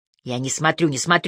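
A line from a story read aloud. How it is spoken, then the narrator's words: Mumble. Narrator (Russian): пробормотала я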